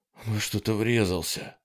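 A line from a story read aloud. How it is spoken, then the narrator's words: Breathless exhale. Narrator (Russian): выдохнул Холден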